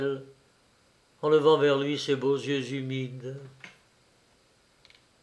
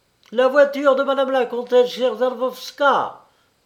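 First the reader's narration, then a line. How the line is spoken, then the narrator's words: Loud shout, footman. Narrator (French): cria à haute voix un valet de pied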